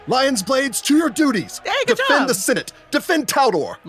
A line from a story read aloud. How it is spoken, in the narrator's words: Kethlyn Zalar, the helpful Senate Guard who'd inspected you when you'd arrived, shouts